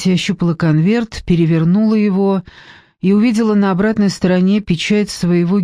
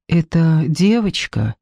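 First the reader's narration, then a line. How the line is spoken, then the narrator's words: Quiet. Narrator (Russian): тихо произнес Мариани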